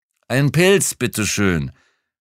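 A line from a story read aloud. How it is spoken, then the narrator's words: Calling into empty hut. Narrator (German): rief ins leere Häuschen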